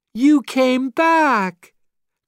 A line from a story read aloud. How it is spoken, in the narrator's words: cried Jesse